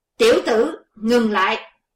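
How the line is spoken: Sudden shout from behind. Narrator (Vietnamese): Bỗng có tiếng quát phía sau lưng

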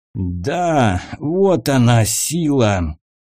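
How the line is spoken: Hoarse declaration. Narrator (Russian): хрипло произносит светоносец

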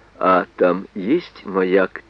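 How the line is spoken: Quiet question. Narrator (Russian): тихонько спросил Брунов

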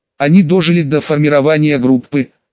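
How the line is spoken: Plain. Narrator (Russian): ответил

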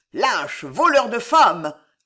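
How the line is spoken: Hoarse strained roar. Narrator (French): rugit une voix rauque et altérée

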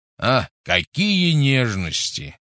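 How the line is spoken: Scornful snort. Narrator (Russian): фыркнул Гош

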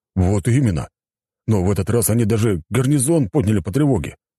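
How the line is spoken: Exclamation. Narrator (Russian): воскликнул рогатый

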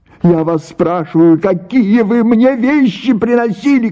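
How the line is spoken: Shouted. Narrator (Russian): крикнула Паша

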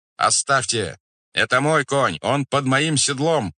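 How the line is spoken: Shouting. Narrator (Russian): кричал Рабша

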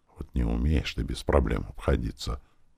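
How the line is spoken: Whispered. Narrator (Russian): прошептала

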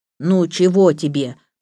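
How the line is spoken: Sleepy grumble. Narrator (Russian): проворчал Самиэд сонным голосом

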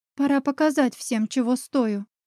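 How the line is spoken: Whisper. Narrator (Russian): прошептала я

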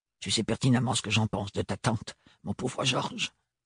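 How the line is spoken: Muttering. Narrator (French): marmonna Roseline

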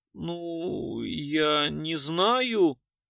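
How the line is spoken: Uncertain. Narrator (Russian): неуверенно проговорила Портнова

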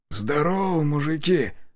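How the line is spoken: Hoarse rasp. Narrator (Russian): прохрипел я

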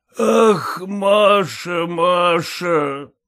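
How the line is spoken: Anguished wail. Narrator (Russian): взвыл портной

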